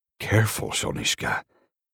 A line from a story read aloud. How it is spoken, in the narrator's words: he grunts